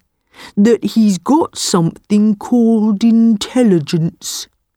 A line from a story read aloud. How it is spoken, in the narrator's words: said the buffalo slowly